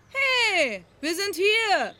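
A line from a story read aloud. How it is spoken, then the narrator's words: Called out. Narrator (German): rief Maud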